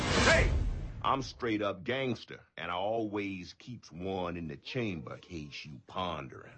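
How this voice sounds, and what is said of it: Imitates a tough street gangster voice. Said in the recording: “talking like a ghetto person ... a pretty convincing Omar from the HBO program The Wire”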